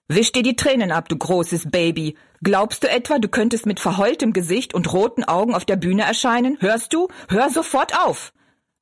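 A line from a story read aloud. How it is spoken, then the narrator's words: Shouted harshly. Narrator (German): rief er barsch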